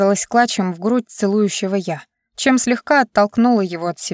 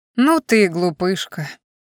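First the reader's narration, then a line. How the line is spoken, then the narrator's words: Playful laughing. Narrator (Russian): Игриво засмеялся он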